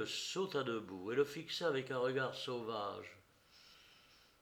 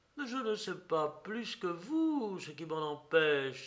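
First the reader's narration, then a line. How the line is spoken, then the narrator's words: Woman exclaiming. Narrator (French): s'écria-t-elle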